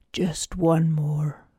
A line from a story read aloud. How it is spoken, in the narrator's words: whispered, shaking so hard his bones ached